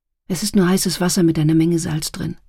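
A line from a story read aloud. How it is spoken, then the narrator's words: Plain. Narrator (German): sagte sie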